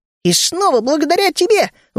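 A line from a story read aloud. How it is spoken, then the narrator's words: Admiring exclamation. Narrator (Russian): восхищенно воскликнул Ми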